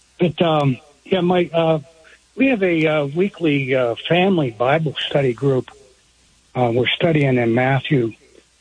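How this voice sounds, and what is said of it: Muffled voice. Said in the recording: “I muffled my voice when I answered you ... My voice is muffled today.”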